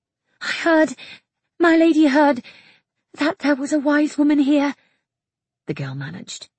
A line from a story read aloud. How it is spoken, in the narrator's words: her voice breathless with anxiety